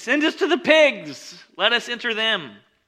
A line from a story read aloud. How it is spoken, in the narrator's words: they begged him, saying